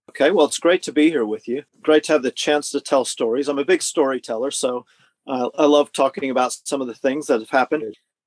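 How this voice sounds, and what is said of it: American accent, often taken for Canadian. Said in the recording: “I am an American, because this will probably keep people guessing. They often think Canadian. But I was born on the Canadian border on the American side, so that counts for some of the accent.”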